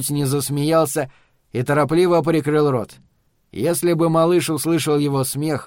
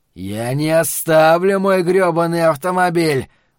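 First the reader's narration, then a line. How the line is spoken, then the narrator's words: Growling. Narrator (Russian): прорычал он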